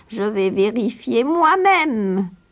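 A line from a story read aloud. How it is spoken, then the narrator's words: Witch's growl. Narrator (French): gronda la sorcière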